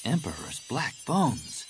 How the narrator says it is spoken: Jaina breathed

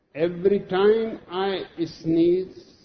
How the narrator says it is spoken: says Gloria

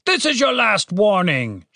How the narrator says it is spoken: shouted the voice from outside

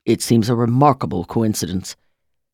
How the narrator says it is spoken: Tim said

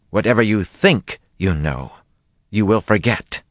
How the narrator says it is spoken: she said angrily

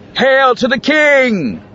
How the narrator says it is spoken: grinned and shouted again

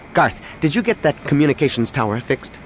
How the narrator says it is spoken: Danny asked rather sharply

